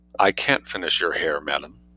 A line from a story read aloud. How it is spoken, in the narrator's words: said Richardson quietly, but with immense decision